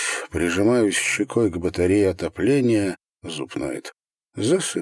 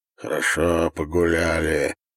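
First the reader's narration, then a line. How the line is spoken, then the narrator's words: Hoarse reply. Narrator (Russian): хрипло отвечает Витька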